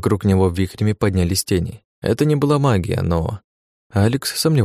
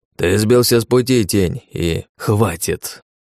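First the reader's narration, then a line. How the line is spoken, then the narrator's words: Barking. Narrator (Russian): рявкнул Спер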